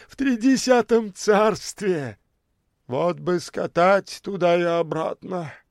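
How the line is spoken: Wistful sigh. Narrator (Russian): вздохнул длинный в шинели

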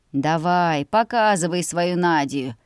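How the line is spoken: Displeased grumbling. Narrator (Russian): недовольно ворчал папа

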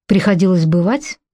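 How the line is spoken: Cold question from general. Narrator (Russian): холодно спросил генерал

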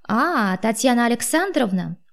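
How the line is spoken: Cheerful. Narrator (Russian): уже бодро продолжил абонент

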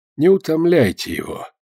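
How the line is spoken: Quiet. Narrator (Russian): тихо сказал доктор Казынов

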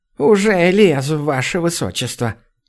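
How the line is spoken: Resigned sigh. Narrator (Russian): обреченно вздохнула Лимми

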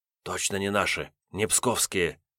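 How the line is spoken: Whisper from the side. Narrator (Russian): прошептал сбоку Серега

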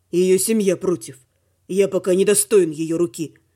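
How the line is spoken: Gloomy werewolf remark. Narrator (Russian): мрачно заметил оборотень

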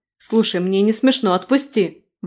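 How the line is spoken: Shouting. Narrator (Russian): выкрикнула

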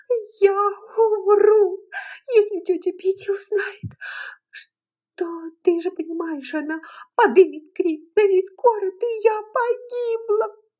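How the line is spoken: Sobbing. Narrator (Russian): рыдала Мелани

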